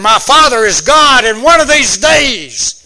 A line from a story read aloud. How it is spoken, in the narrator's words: Jesus ... he cried out in anger